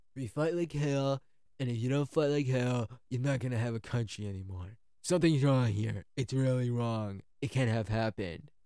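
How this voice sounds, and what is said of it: Poor imitation of another person's voice. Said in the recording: “I just want to do it in the Trump voice ... That's a bad Trump impression.”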